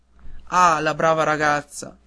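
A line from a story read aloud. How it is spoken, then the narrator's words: Exclaimed. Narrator (Italian): esclamò il padre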